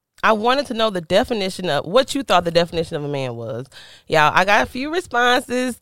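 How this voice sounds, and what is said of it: Stuffed-up, congested voice. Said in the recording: “I sound so stuffed up. ... It's just her sinuses.”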